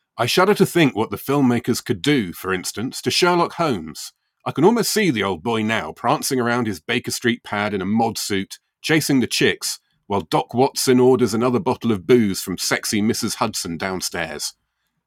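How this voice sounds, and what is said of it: Uptight British accent. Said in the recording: “I feel like this would be read in an uptight British accent.”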